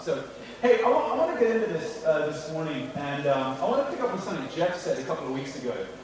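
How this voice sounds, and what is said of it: Mixed British-American international English accent. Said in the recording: “my accent is what I call a Hong Kong international accent. It's a melting pot of England, America ... a little bit of a kind of weird accent as well, like a little tweak on the end of my sentences and stuff”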